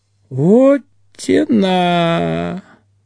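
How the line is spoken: Drawling. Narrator (Russian): протянул Ведищев

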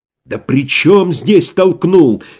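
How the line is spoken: Exasperated exclamation. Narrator (Russian): сердясь на общую бестолковость, воскликнул Иван

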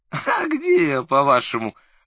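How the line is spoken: Uncertain laugh. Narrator (Russian): в ответ рассмеялся Лукашин, но это был неуверенный смех

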